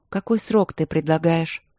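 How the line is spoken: Calm question. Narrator (Russian): спросила Василина спокойно

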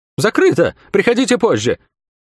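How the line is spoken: High nervous voice. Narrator (Russian): командир сказал неожиданно высоким нервным голосом

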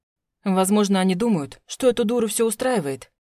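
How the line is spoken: Growled reply. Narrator (Russian): рыкнул он мне в ответ

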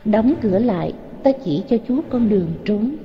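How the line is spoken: Gentle low young woman. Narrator (Vietnamese): Thiếu nữ ôn tồn hạ giọng bảo Tôn Đản

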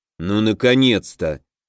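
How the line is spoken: Displeased grumble, relieved undertone. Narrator (Russian): недовольно буркнул Аш, но мне показалось, что в его голосе промелькнули нотки облегчения

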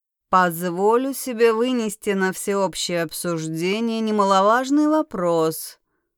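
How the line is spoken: Drawling. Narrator (Russian): протянул Варлок

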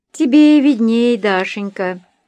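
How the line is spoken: Sighing. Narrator (Russian): вздохнула Любовь Федоровна

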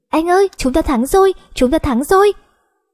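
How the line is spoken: Joyful laughing shout. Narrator (Vietnamese): Ngọc Lan vui mừng cười vang thành tiếng, hét lớn

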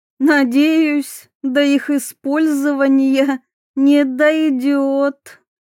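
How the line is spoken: Mocking drawl. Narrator (Russian): насмешливо протянула Диана

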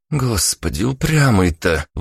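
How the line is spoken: Exhaled. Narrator (Russian): выдохнула Ника

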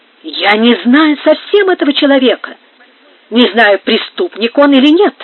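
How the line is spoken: Furious exclamation. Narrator (Russian): воскликнул с бешенством алькальд

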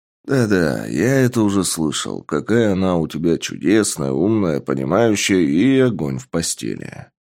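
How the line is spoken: Grumbled. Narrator (Russian): Проворчал

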